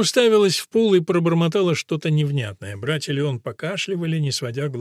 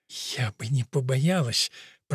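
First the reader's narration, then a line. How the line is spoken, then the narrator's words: Whisper. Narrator (Russian): прошептала Бонифация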